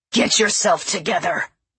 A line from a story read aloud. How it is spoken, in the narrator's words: growled